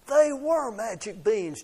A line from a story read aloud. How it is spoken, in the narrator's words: Jack shouted